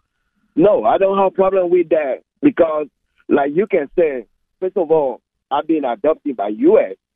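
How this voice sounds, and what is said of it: Non-native English accent. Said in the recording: “through my accent, you can tell that I'm not from here”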